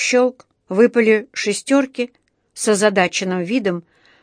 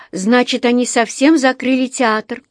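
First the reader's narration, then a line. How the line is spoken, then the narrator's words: Sorrowful exclamation. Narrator (Russian): горестно воскликнула Джуди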